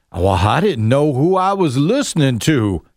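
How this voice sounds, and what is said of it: Put-on southern accent. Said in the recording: “I'm giving him a southern accent.”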